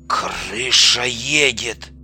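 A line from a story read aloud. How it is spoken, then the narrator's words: Quiet mutter. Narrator (Russian): негромко пробормотал скаут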